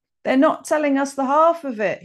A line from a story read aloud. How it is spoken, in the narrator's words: yelled